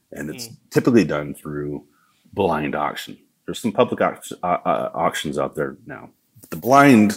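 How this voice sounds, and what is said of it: Southern US accent. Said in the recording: “that's my southern accent.”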